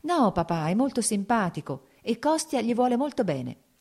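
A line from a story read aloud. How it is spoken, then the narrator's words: Smiling, pleading. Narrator (Italian): disse sorridendo Kitty, come a supplicarlo di qualcosa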